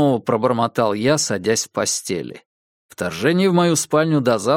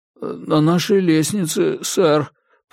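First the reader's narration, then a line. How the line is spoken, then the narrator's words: Embarrassed mumble. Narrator (Russian): промямлил Джордж, красный от смущения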